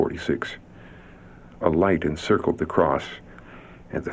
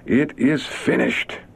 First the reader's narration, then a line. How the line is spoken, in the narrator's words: in clear trumpet-like tones that seemed to resound throughout creation, Jesus cried